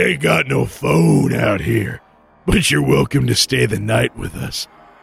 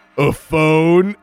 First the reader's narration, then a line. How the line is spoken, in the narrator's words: chuckled